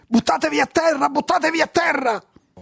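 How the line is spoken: Several voices shouting together. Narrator (Italian): Parecchie voci gridarono contemporaneamente

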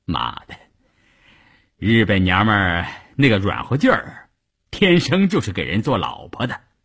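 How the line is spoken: Laughing. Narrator (Chinese): 笑着对一旁的三五九旅副旅长谭之林说

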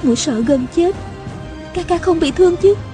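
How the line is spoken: Soft reply. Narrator (Vietnamese): A Cửu khẽ đáp

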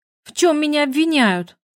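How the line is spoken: Shouted. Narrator (Russian): Я крикнула

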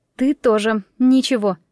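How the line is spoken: Slightly trembling voice. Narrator (Russian): ответила я чуть дрогнувшим голосом

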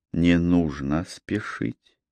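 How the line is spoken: Soft. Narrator (Russian): мягко сказала

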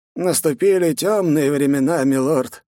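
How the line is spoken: Sighing. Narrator (Russian): вздохнула Акумура Дано

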